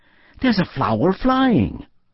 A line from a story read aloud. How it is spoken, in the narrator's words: exclaimed